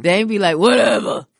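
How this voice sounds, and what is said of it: Imitates another person's voice. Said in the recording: “That's your Dame impression.”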